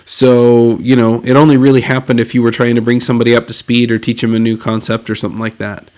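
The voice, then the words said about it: Slightly congested voice from cold. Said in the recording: “I have a little bit of a cold.”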